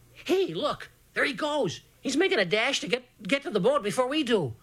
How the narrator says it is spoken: All of a whirlwindy sudden, Poetry gasped

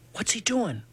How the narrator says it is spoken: I whispered in Portree's ear

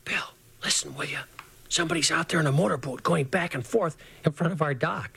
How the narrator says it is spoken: him whisper

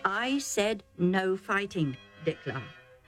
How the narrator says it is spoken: Isaac said calmly but firmly

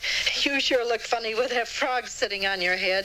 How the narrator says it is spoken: the boys laughed

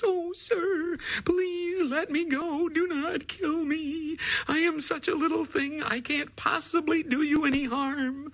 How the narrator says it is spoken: The flea was terrified, and he begged in his tiny, whimpering voice

